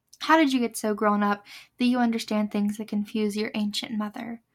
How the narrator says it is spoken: Mom asked

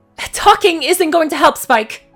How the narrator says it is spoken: Flurry snapped

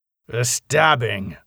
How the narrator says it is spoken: said Gerald grimly

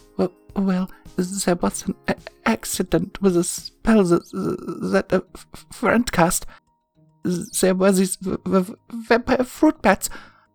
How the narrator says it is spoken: stuttered nervously, replying

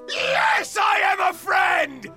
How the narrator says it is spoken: Rick screamed

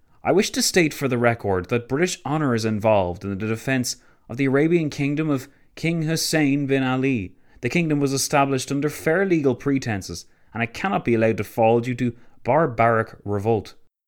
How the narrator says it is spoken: Tancred exclaiming himself

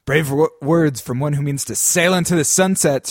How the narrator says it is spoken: Stripeback snarled back

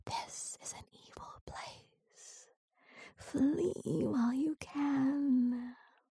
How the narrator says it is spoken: whispered

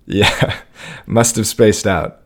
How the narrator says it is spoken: laughed

